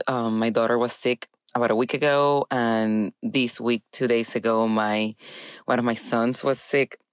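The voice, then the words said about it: Scratchy, congested head-cold voice. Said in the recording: “you're gonna notice that my voice has changed a little bit, and it's because I think I'm getting bit a little bit of a head cold ... I've been having a little bit of a scratchy throat, and today I woke up like this”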